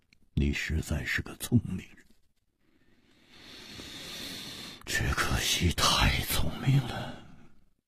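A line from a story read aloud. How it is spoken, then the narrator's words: Long sigh, leisurely. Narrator (Chinese): 无花长长的叹了一口气，悠然说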